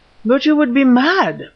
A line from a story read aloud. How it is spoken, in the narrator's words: cried the former